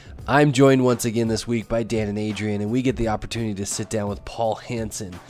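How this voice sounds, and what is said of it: Rough, bad-sounding voice. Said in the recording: “Please forgive my terrible sounding voice... my voice just sounds horrific”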